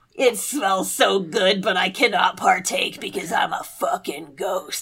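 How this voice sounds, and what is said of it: Put-on character voice for ghost. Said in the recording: “I don't know why I gave her that voice. That is not what she sounds like at all.”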